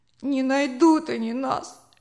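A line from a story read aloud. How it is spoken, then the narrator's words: Sobbing. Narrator (Russian): всхлипывал Джозеф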